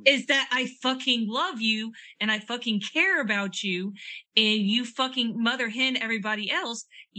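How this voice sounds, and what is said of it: Loud angry yelling. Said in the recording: “I'm yelling this loud”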